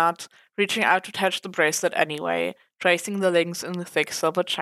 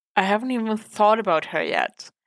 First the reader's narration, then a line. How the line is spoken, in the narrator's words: Marcy admitted with a sigh